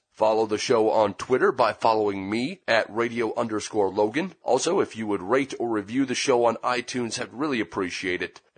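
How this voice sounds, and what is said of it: Sick, worn-out voice. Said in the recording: “You can probably hear in my voice that I'm a little bit under the weather ... never really been able to allow my voice to recover”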